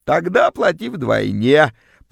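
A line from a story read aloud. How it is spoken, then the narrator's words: Extortioner's creaky voice. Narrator (Russian): проскрипела вымогательница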